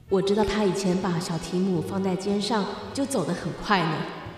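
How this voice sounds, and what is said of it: Firm, cheerful voice. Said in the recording (Chinese): “用坚定愉快的声音说”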